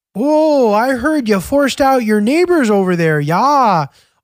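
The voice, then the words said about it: Put-on North Dakota accent. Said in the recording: “the stereotypical North Dakota accent”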